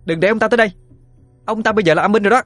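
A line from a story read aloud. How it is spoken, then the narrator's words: Sharp shout. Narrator (Vietnamese): Cô quát lên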